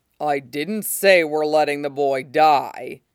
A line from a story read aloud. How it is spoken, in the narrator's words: says somewhat dryly